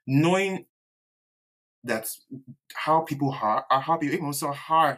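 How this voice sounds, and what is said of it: Yoruba accent slips through. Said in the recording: “Oh God, my Yoruba accent.”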